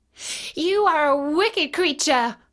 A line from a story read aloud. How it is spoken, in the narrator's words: cried Dorothy